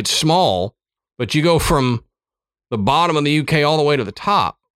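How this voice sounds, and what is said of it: Southern American accent. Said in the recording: “my accent was too much ... why do you talk like that? ... Because of where I was born ... my dumb Southern American ear”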